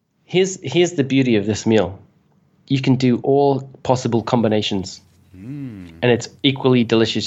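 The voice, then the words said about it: British accent. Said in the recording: “the accent, but I feel like I'm talking to Gordon Ramsay right now ... because he's British ... You had the emphasis on it too.”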